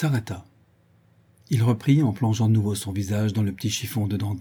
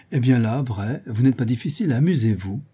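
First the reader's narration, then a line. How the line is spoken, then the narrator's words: Cheerful reply. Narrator (French): Madame de Gueldre répondit gaiement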